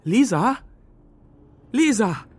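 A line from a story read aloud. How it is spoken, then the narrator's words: Timid half-loud call. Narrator (German): rief ich durchs Treppenhaus, aber zaghaft halblaut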